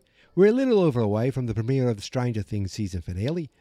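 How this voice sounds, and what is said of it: Put-on Australian accent. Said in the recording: “Oh, now I'm Australian.”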